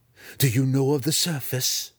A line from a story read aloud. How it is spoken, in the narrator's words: Master Hachnut snarled